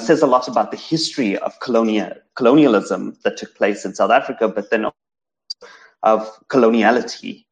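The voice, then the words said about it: South African Indian English accent. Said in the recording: “as a South African Indian growing up in South Africa, um, my accent, my the the fact that I speak standard English”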